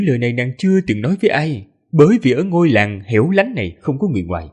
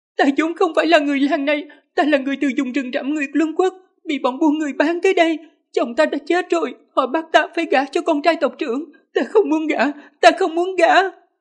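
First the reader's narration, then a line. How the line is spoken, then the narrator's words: Trembling woman, loud crying. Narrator (Vietnamese): cơ thể đột nhiên run rẩy kịch liệt, khóc lớn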